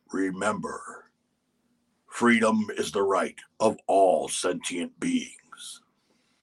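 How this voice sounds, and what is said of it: Optimus Prime impression. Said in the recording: “your impression ... Ooh, that's Optimus Prime.”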